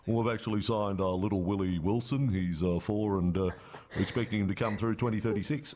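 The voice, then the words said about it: Poor imitation of another person's voice. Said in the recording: “That's a really bad Wayne impersonation”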